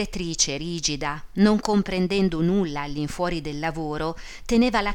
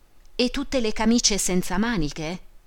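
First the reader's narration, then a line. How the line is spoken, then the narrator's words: Exclaimed. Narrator (Italian): esclamò Teresina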